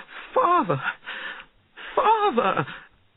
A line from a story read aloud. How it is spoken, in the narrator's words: cried